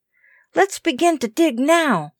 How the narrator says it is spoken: said Kenneth eagerly

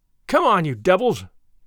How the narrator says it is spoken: he cried

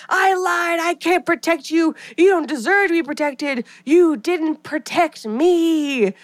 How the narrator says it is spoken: Maureen's voice turns harsh and she's screaming

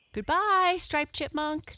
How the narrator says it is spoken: they shouted as they romped across the green meadow

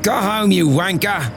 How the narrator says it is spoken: her companion shouted

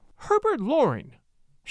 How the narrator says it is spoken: she cried

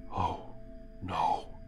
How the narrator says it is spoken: Simon whispers

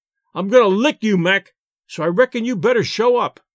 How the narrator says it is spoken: shouted the Rube

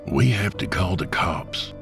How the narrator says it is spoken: Jacob whispered

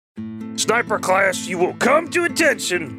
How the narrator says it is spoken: barked the burly instructor

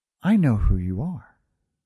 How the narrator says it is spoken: She put her mouth close to my ear and whispered

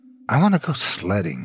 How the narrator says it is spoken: muttered

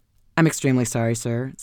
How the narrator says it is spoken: said this emissary

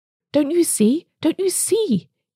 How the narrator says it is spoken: he cried feverishly

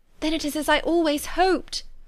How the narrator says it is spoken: cried Jane

